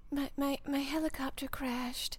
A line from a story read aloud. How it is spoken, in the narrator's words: she whispered, relishing in how hoarse her voice was